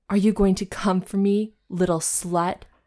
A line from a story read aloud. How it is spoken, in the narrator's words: Evan growled